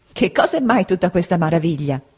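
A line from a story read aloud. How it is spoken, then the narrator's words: Good-natured woman laughing. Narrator (Italian): disse ridendo la buona donna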